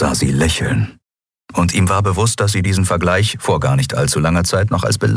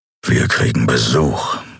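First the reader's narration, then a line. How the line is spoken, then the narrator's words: Growling. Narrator (German): knurrte er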